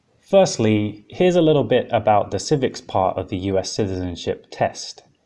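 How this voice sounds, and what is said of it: British accent. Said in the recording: “someone with a British accent”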